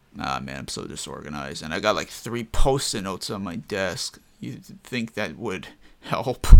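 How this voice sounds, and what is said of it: Usual voice. Nothing is said of it.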